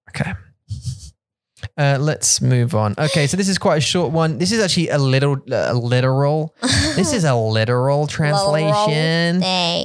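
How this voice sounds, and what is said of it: Odd put-on accent. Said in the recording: “my accent went all funny. And then I thought I'm just going to run with it”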